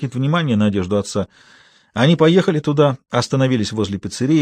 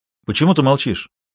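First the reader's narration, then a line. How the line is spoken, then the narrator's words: Father's displeased interruption. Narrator (Russian): недовольным тоном прервал отец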